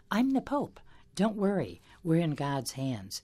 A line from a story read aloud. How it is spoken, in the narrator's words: Pope Francis replied by calmly saying